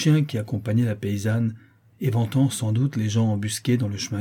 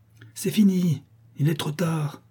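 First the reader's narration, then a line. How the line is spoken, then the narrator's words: Exclaiming. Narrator (French): s'écria la Chouette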